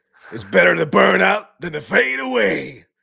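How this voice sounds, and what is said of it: Imitates another person's voice. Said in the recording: “that was a good impression ... Actually, it came out better than I thought it would.”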